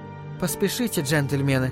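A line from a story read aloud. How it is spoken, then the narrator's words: Quiet. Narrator (Russian): негромко сказала она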